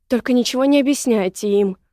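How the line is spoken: Exclaimed. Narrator (Russian): воскликнула Женя

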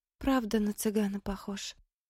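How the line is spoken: Sad smirk. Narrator (Russian): Грустно усмехнулась Мэри

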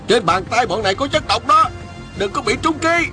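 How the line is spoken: Angry worried loud shout. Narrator (Vietnamese): Y vừa tức giận vừa lo lắng, lớn tiếng hô lớn

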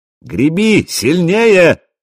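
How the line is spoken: Shouted. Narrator (Russian): закричал Хрёрик

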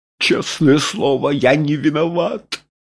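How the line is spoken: Sobbing. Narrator (Russian): начал он, всхлипывая

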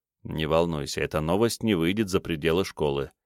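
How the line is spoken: Quiet words. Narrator (Russian): негромко произнес Биккарт

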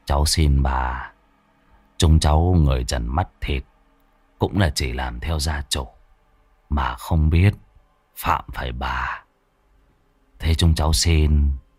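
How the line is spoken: Muttered plea. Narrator (Vietnamese): Bác Kim lẩm bẩm

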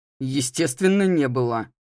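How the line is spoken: Snorting. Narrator (Russian): хмыкнул Стивен

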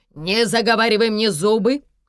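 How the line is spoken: Barked. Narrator (Russian): рявкнул мессир

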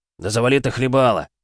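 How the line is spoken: Barked. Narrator (Russian): рявкнул Демитка

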